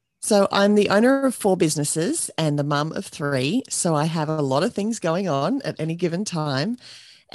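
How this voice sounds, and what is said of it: Australian accent. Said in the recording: “I'm here in Australia, and you can probably tell that from my accent already”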